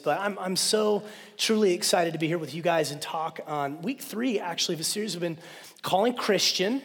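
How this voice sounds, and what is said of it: Hoarse voice from a cold. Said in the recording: “my voice is a little bit messed up. I caught a cold ... kind of running out of my voice”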